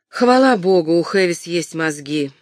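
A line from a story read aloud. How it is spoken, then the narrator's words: Sighing. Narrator (Russian): вздохнула Филиппа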